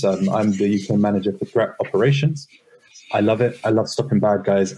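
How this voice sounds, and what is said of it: British accent. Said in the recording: “that is a British accent there”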